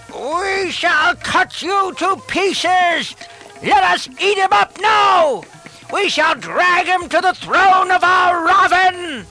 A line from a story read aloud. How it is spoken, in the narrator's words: They shouted